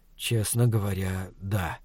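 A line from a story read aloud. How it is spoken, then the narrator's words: Quiet reply. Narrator (Russian): ответил я тихо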